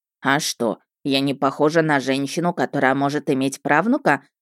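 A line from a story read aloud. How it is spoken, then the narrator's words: Witch's indignant snort. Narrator (Russian): фыркнула главная ведьма империи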